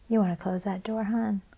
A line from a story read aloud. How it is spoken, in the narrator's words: said quietly